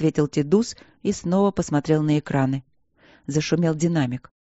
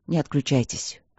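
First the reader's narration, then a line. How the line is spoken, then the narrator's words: Muffled mutter over speakers. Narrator (Russian): глухо пробормотало в динамиках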